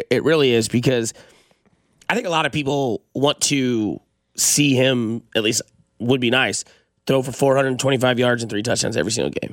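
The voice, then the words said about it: Hoarse, strained voice. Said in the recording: “I think I'm losing my voice.”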